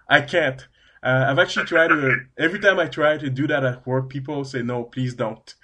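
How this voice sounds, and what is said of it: French-Canadian accent. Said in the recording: “my French-Canadian accent. Yes, I'm a Canadian. I speak French. I can't change that accent.”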